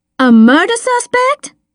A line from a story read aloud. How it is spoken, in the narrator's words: She said, her voice rising